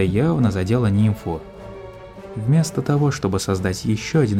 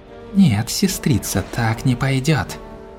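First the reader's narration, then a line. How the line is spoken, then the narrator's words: Vengeful hiss. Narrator (Russian): С неожиданной для себя мстительностью прошипела Кризалис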